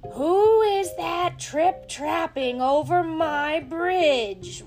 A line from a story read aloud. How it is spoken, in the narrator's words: roared the troll in his loudest voice